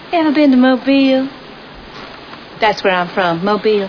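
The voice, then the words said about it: Southern accent. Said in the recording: “I can't quite place your accent... Whereabouts in the South are you from?”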